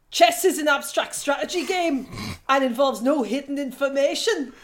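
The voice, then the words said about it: Put-on Northern English accent. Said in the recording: “say it in an accent to make it more exciting? A native Leeds accent ... That's Newcastle, I think, but it's definitely a Northern accent.”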